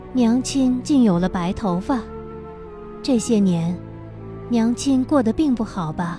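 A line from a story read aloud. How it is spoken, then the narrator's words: Soft. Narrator (Chinese): 轻声道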